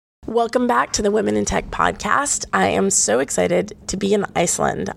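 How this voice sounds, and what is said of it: Rough, slightly hoarse voice. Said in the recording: “my voice is a little bit rough around the edges”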